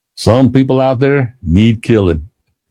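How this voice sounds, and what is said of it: Put-on Southern accent. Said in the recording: “He repeated this motto in a Southern accent.”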